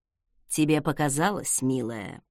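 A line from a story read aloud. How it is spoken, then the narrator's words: Purring. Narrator (Russian): промурлыкал в ответ он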